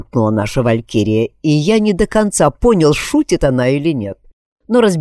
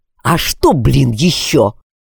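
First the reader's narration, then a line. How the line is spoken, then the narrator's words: Angry question. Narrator (Russian): сердито спросил я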